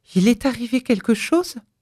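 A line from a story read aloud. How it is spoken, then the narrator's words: Breathless panting question. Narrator (French): demanda-t-elle d'une voix haletante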